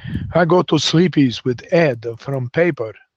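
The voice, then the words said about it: Put-on foreign accent, broken English. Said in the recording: “speak with a foreign accent so they blend in New York”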